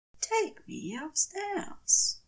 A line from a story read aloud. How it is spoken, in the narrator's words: Aziraphale says quietly